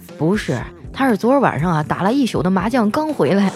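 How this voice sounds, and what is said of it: Simple, honest-sounding driver's voice. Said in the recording (Chinese): “司机淳朴憨厚的声音说”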